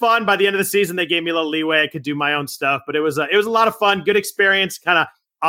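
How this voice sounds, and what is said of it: Usual voice. Nothing is said of it.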